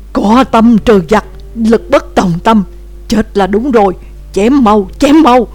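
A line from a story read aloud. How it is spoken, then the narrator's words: Loud yell. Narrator (Vietnamese): Đàm Tử Đồng gào to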